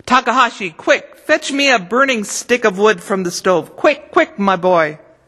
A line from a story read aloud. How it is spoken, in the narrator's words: Suddenly, grandfather shouted